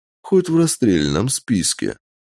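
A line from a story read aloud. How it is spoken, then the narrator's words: Calm. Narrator (Russian): спокойно сказал сэр Дэвид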